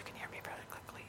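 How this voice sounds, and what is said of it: Soft whispering voice. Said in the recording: “this is my whisper voice”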